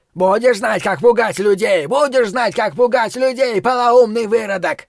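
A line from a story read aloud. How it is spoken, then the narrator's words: Hysterical shout. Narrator (Russian): один из них истерично крикнул через плечо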